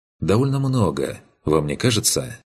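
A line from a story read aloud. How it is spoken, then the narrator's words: Rueful sigh. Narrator (Russian): Мейфорд сокрушенно вздохнул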